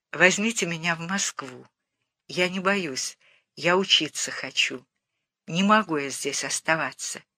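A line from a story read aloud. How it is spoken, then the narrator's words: Very quiet but stubborn. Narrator (Russian): очень тихо, но упрямо сказала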